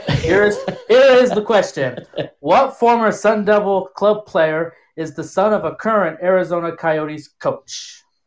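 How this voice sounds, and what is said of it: Game show host voice. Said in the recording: “my game show voice”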